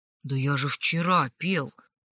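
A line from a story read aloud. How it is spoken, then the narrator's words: Cut off mid-sentence. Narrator (Russian): Начал было Гарри, но замолчал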